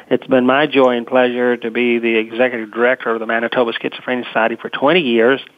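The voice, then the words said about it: American Southern accent. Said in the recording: “as you can tell by the Southern accent”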